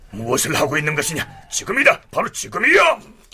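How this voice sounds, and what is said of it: Low, hushed urging voice. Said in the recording (Korean): “나직한 목소리로 재촉하였다”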